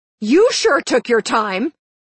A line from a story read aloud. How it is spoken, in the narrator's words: I yelled